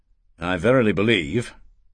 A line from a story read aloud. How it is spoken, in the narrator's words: Erasmus said coldly